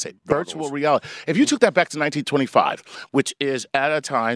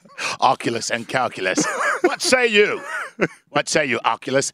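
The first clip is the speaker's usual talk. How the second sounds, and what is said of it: Put-on British accent. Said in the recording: “I like that you're being ancient Roman with a British accent.”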